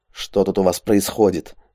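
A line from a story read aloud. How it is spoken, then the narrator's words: Irritated question. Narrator (Russian): раздраженно спросил у снайпера Андрей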